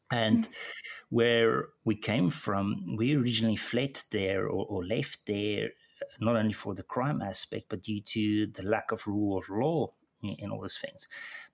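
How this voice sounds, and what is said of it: South African accent. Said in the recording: “my accent probably gave it away, but I was born in South Africa.”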